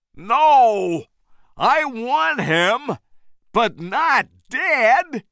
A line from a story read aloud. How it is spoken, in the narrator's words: Carl shouted